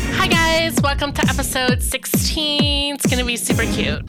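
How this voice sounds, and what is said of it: Cutesy high-pitched baby voice. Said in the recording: “I was trying to go for like Paris Hilton baby voice, but it's hard.”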